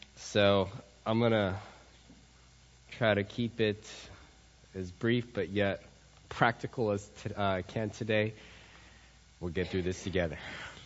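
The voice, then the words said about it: Unusually deep, strained voice. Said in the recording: “As you can tell from my voice, I've been singing bass the last couple days and practicing my James Earl Jones impressions”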